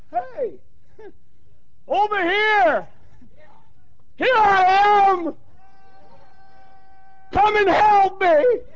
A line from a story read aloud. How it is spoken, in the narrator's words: I cried to the top of my voice